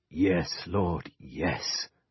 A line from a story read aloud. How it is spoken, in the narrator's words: he breathed